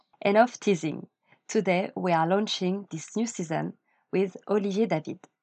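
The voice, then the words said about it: Light French accent. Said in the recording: “a bit of an accent. In three words, à la française.”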